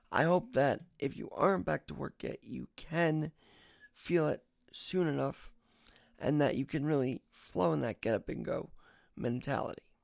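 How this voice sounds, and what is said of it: Slightly raspy voice. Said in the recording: “my voice is a little raspy because I just got woke up”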